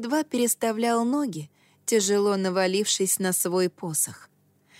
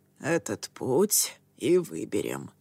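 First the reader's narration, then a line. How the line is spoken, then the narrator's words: Hoarse. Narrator (Russian): хрипло произнес учитель Дзира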